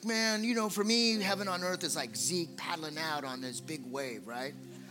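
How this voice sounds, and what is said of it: Laid-back surfer accent. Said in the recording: “I'm doing Jeremy's accent ... I'm doing the surfer thing”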